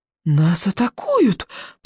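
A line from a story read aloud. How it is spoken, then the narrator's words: Whisper. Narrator (Russian): прошептал рыбьенок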